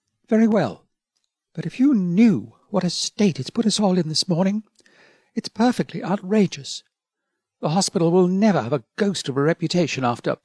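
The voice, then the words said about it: Hushed, quiet voice. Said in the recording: “she agreed in a hushed voice.”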